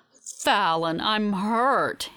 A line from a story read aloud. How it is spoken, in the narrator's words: he says, his voice dripping with sarcasm